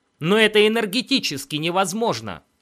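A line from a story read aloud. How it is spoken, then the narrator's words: Exclamation. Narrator (Russian): воскликнул Финли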